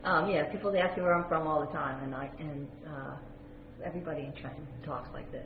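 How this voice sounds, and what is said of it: Slight Southern New Jersey accent. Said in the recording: “a touch of an accent ... traced it back to a sort of Southern New Jersey”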